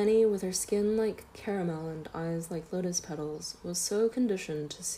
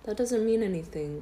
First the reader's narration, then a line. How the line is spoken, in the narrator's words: said my father